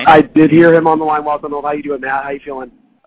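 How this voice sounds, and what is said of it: Hoarse, worn-out voice. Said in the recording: “my voice is shot”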